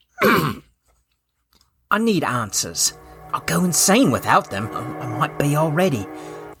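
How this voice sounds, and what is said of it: Character voice of Felix. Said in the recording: “Felix. ... I'll do the voice.”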